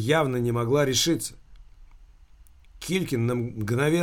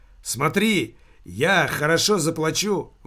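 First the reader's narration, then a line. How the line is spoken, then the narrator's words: Exclaiming. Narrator (Russian): воскликнул он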